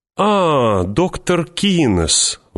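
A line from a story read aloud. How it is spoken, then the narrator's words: Exclaiming. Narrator (Russian): воскликнул водоторговец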